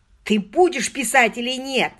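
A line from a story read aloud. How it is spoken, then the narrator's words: Yelled. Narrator (Russian): заорал Мерсер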